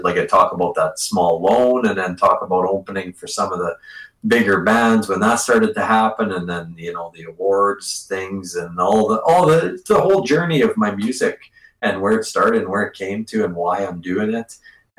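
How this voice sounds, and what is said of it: Speaks with a distinct accent. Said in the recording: “I love your accent. It's the greatest thing. I could listen to you talk all day.”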